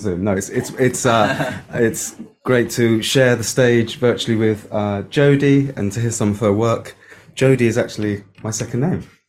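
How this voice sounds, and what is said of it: Cork Irish accent. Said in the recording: “You notice by my accent, I lived in Cork for a long time.”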